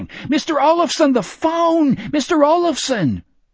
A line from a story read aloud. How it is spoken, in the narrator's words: the clerk yelling